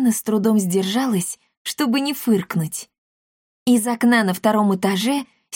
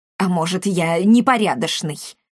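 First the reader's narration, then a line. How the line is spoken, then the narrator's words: Irritated curt retort. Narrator (Russian): раздраженно бросил Апраксий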